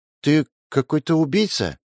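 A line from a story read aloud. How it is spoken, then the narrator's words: Uncertain mumble. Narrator (Russian): неуверенно пробормотала Алиса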